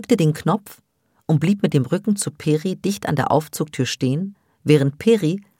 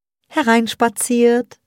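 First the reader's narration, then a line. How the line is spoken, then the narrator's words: Singsong. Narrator (German): sang Peri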